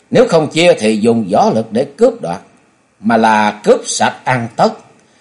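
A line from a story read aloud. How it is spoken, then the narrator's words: Loud, hostile group. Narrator (Vietnamese): Năm tên ác tặc lập tức trở mặt lớn tiếng khẳng định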